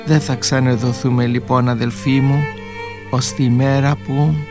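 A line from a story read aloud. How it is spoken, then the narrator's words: Quiet. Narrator (Greek): Σιγά ο Αλέξιος της είπε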